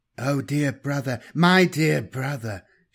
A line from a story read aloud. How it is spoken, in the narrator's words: breathed in a warm voice